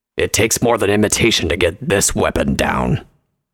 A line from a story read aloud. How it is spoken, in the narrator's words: he growled